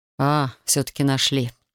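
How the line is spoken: Calm. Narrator (Russian): спокойно заметил Александр

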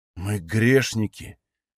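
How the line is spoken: Frightened. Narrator (Russian): произнес испуганно второй

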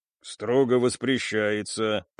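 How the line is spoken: Grumbling. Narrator (Russian): пробурчал Стас

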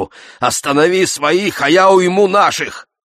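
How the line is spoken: Contemptuous snort. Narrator (Russian): Он презрительно хмыкнул

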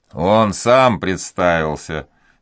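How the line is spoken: Laughing reply. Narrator (Russian): смеясь, отвечал флибустьер

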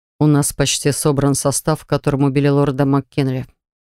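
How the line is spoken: Sudden quiet. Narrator (Russian): вдруг тихо сказал он

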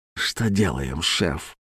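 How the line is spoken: Whisper. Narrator (Russian): шепот

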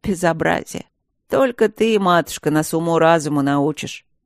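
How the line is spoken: Sarcastic howl. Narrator (Russian): Ехидно взвыл фон Сьедентент

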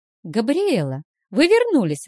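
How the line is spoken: Joyful exclamation. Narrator (Russian): воскликнула радостно Вилма

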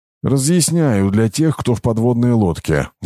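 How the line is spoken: Sigh. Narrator (Russian): вздохнул имперец

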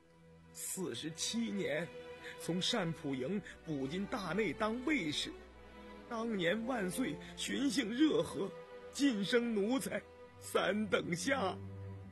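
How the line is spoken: Hoarse choked voice. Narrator (Chinese): 张五哥想起老主子康熙，声音不禁变得嘶哑哽咽

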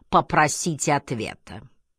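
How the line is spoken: Commanding drawl, burred r's. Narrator (Russian): картавя и растягивая слова, сказал повелительным тоном

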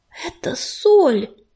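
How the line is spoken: Strained. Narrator (Russian): выдавил

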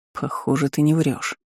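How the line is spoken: Mutter. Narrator (Russian): пробормотал Джорет

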